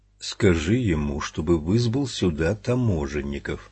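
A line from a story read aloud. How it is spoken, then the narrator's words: Quiet address. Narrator (Russian): тихонько обратился Макдональд к штурману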